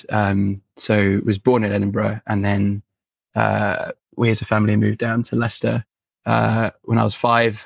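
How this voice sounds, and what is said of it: Generic English accent. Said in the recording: “I just have a generic English accent.”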